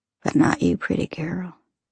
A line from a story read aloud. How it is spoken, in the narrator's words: he whispers